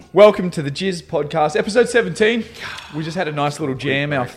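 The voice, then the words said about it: Strained, hoarse voice. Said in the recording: “Lost my voice already.”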